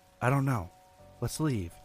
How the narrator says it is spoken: I said

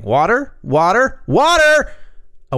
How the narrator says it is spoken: Ellen starts screaming

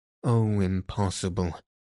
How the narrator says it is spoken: moaned Raoul

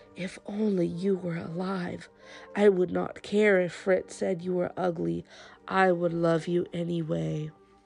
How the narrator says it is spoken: She whispered

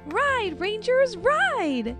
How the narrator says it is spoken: Rosie cried

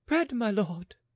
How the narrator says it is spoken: she was so weak that she fainted after gasping

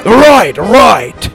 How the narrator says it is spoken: Dallas shouted

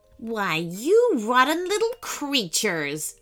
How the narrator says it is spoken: sneered the sea serpent

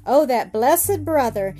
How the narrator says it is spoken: cried

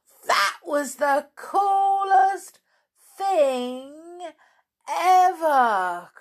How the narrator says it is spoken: cried Jack

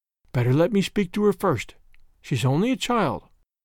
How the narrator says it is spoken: begged in a whisper

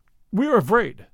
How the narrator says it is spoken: Elipopus cried

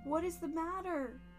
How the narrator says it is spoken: Bridget shouted

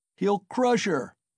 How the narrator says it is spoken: was shouted round him

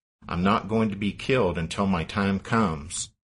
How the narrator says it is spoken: He calmly told his stunned staff

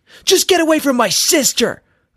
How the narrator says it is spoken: I told him angrily

